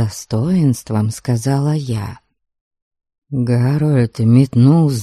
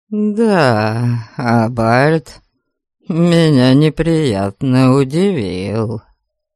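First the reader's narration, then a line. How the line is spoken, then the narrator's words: Contemptuous, through gritted teeth. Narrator (Russian): презрительно процедил он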